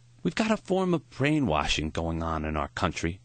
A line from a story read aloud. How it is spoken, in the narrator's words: Maury sighed